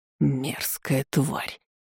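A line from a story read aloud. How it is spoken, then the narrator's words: Angry hiss. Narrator (Russian): Алузар прошипел со злостью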